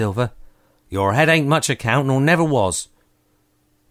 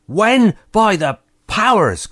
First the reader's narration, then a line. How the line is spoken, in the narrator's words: cried Silver